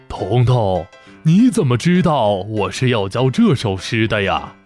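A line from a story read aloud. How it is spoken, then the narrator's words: Surprised, laughing. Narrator (Chinese): 老先生惊讶地，笑着说道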